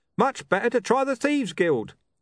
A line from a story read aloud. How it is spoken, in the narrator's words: a man yelled